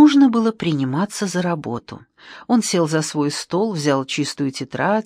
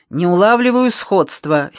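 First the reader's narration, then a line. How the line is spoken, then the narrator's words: Angry reply. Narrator (Russian): сердито ответил Пашинцев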